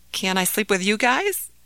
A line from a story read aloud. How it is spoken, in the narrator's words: asked Ahmed timidly